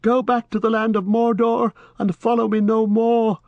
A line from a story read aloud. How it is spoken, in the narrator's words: His voice sounded thin and shrill in his own ears